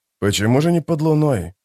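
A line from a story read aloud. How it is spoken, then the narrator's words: Muttered. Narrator (Russian): пробормотал историк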